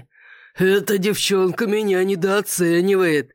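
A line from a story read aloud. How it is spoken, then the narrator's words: Chuckle. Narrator (Russian): хохотнул лорд Рамси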